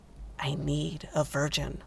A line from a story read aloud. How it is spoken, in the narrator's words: said Jared, his voice hollow